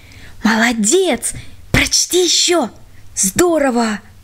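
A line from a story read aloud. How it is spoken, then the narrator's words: Whispers from all sides. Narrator (Russian): со всех сторон шептали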